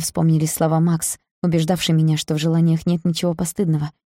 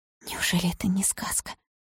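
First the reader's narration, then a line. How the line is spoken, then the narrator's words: Whispered. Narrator (Russian): прошептала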